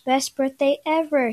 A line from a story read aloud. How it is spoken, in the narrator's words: said